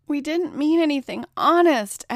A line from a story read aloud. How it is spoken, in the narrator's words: cried out